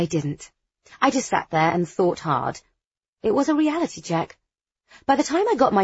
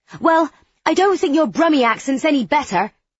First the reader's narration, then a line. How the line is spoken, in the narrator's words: exclaimed